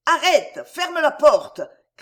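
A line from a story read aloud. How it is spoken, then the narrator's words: Shouted in thundering voice. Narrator (French): cria le duc d'une voix tonnante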